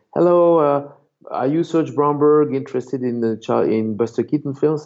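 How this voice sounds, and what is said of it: Heavy Spanish accent. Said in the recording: “who spoke with a very heavy Spanish accent”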